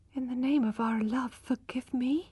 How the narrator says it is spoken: she whispered with a dry mouth

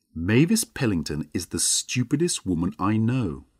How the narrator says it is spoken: he said

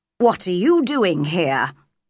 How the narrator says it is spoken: asked crossly

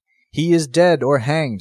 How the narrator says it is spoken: said another

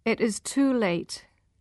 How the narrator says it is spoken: she said, her voice hard

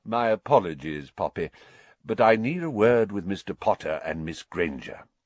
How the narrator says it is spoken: said Dumbledore calmly

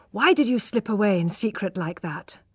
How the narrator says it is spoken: asked d'Urberville breathlessly

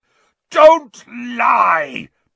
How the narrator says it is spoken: bellowed Black

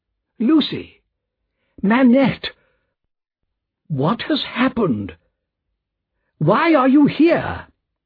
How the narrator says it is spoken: cried Mr

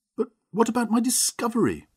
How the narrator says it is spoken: cried

